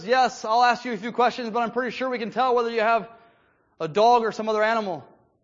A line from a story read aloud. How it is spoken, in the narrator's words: chuckles and says